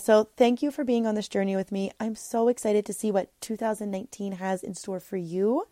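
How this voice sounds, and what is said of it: Slightly emotional, choked-up voice. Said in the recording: “I'm starting to get a little emotional.”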